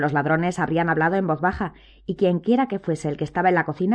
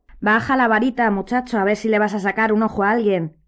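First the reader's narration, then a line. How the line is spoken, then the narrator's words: Quiet grumpy voice. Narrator (Spanish): dijo una voz queda y gruñona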